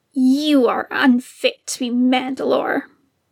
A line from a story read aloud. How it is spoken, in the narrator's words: the man spat